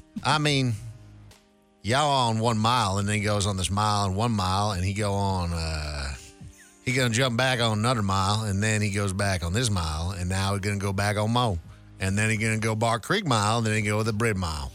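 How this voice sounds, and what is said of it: Put-on strong Southern US accent. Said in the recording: “slightly Southern accent... you're going full Savannah?... I'm going full Savannah.”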